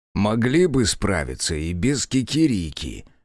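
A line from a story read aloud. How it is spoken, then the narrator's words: Muttering. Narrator (Russian): пробурчала Яшики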